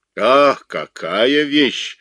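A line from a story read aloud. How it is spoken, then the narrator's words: Delighted shout. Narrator (Russian): с восторгом закричал Абуладзе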